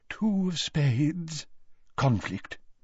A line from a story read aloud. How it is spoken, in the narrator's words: she murmured